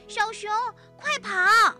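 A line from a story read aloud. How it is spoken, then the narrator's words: Child shouting. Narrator (Chinese): 突然有一个小朋友大喊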